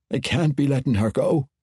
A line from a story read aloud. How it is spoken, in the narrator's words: Brunner gasped, and surely he was overwhelmed then